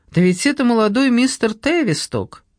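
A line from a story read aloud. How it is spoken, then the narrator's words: Joyful exclamation. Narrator (Russian): он радостно воскликнул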